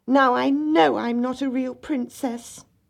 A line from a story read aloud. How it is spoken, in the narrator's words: the little princess cried